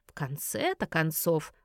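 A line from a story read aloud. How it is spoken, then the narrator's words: Mutter. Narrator (Russian): пробормотал Гарольд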